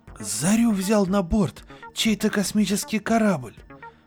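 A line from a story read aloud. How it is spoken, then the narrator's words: Exclamation. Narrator (Russian): Воскликнул кто-то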